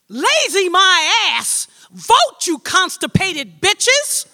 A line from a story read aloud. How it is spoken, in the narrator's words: I hear myself screaming at the Congress